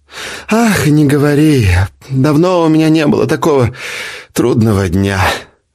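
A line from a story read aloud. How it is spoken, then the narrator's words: Heavy weary sigh. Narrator (Russian): тяжело вздохнула жена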